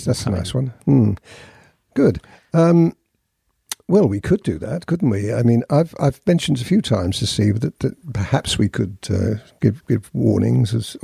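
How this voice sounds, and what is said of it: Speaker's natural non-American accent. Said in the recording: “I enjoy your accent”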